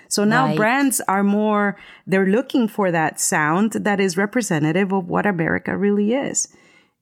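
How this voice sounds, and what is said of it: Speaks English with an accent. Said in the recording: “because of my accent ... I'm booking projects left and right because of my accent”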